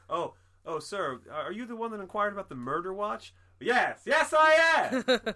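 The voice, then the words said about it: Loud, beaming imitation of an actor. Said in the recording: “my impression of John Lithgow. I don't even do a good John Lithgow, but it's whatever you're going to say, but louder ... And with a big smile on your face”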